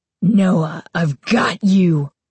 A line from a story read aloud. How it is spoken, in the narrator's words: Carly Beth shrieked, her voice deep, raspy, evil